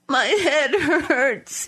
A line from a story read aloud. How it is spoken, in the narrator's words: he said, sobbing